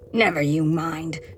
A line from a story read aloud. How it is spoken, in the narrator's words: growls